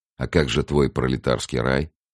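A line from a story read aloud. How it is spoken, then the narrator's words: Mocking question. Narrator (Russian): насмешливо спросил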